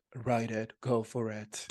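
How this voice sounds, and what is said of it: Imitates another person's voice. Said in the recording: “that's my impression of Alejandro... It was so spot on.”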